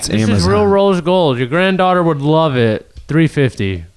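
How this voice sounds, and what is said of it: TV shopping channel sales host voice. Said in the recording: “impersonate a QVC ... The person that's the channel”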